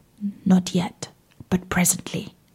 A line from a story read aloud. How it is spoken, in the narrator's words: she, knowing the danger her master was in, answered quietly